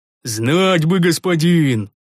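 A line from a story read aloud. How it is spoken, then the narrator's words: Sigh. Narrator (Russian): вздохнул Рикар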